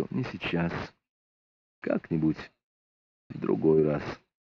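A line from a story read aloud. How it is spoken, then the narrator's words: Tired reply. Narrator (Russian): устало ответил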